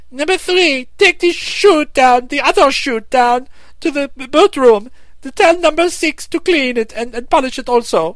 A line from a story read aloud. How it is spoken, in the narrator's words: Jicky cried out